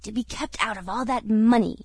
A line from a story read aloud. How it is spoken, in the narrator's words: as the avaricious Moody had muttered to his friend Handy